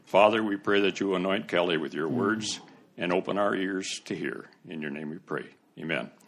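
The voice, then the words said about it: Rich radio announcer-style voice. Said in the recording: “that guy's got a great radio voice ... It sounds just, anybody remember a guy by the name of Paul Harvey?”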